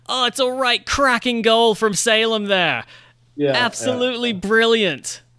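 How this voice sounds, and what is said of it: Imitates a soccer commentator's voice. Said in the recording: “I tried to turn on my best, like, Ian Dark impersonation.”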